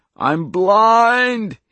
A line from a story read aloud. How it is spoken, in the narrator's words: He screamed again